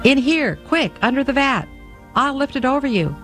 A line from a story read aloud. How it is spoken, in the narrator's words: Pierre the Cooper called excitedly